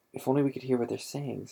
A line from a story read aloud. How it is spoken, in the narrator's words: said Hermione